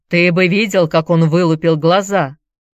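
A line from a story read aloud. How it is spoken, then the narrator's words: Laughing. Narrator (Russian): засмеялся Дэвид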